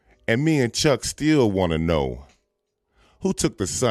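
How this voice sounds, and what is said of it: Usual voice. Nothing is said of it.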